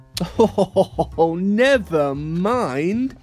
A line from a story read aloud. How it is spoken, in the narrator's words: laughed